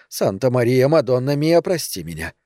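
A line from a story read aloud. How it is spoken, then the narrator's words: Whisper. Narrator (Russian): прошептала она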